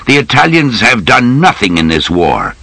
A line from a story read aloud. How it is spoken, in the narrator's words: he said angrily